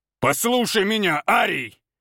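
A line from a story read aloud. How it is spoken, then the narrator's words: Growling. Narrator (Russian): зарычал Валентин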